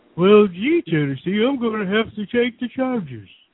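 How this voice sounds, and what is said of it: Poor cartoon character impression. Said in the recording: “That was horrible. That was a horrible impression.”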